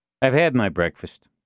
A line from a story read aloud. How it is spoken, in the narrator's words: Duffy said curtly